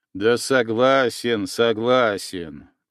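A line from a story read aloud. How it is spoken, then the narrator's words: Muttering grumble. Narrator (Russian): пробурчал Еремеев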